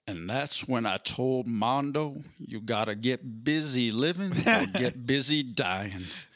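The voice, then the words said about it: Deep, wise older man's voice. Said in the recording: “do a Morgan Freeman impression”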